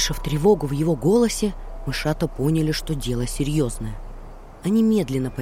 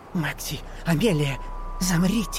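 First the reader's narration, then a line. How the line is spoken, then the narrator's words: Startled whisper. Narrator (Russian): он вздрогнул и прошептал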